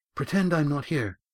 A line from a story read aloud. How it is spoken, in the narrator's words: gasped Estrella